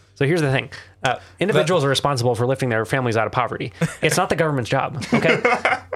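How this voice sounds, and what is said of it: Ben Shapiro impression, fast, higher-pitched. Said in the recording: “All right, Ben Shapiro ... Good impression ... just a little bit higher pitched and really fast ... Fast talking, higher pitch”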